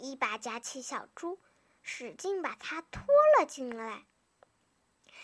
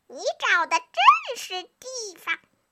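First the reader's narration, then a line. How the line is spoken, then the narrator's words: Fox calling out. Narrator (Chinese): 狐狸喊着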